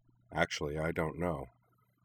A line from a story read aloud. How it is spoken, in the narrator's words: his voice was slightly sad as he replied